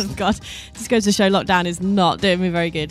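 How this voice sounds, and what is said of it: Out of breath speaking. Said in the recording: “out of breath, I just ran up the stairs.”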